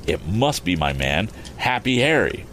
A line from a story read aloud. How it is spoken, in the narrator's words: exclaimed Tom, half aloud